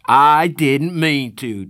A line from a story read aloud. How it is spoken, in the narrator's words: Darry shouted